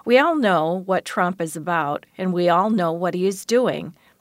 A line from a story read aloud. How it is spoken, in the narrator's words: says Ms